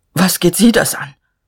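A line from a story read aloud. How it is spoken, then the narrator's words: Stammered. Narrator (German): Er stammelte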